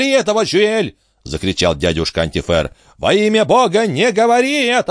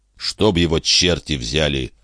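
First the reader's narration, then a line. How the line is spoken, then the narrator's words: Muttered. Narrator (Russian): пробормотал Жильдастре Гумен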